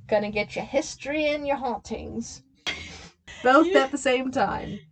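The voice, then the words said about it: Put-on old English accent. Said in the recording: “You keep switching into, like, this old English accent... I'm doing, like, early 1900s up to the 1980s.”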